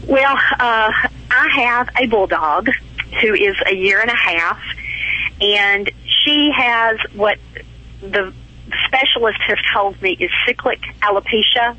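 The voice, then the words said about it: Southern US drawl. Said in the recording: “I just love your southern drawl.”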